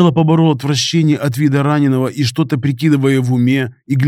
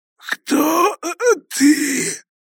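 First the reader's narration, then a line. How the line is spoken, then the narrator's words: Hoarse gurgling mumble. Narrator (Russian): Хрипло промычал бандит, булькая кровью изо рта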